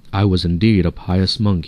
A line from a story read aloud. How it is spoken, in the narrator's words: he afterwards said